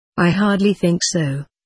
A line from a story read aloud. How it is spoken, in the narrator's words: I replied